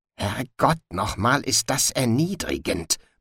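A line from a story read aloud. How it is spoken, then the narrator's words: Mutter. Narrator (German): murmelte Sally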